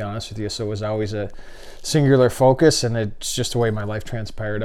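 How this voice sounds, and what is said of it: Canadian accent. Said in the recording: “the Canadian accent”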